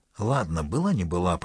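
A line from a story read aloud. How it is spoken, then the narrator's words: Muttering. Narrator (Russian): пробормотала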